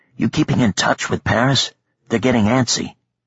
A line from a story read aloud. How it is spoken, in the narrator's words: Kasim Marid whispered